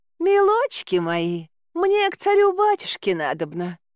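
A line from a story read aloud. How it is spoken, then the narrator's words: Ingratiating coo. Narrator (Russian): заискивающе проворковала я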